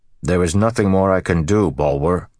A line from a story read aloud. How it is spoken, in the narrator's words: Perrin said firmly